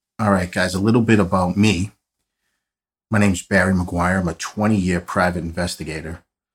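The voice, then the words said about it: Strong Boston accent. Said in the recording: “I have the world's worst Boston accent”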